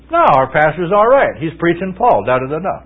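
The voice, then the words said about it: Sarcastic mocking tone. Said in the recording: “I guess that was sarcasm.”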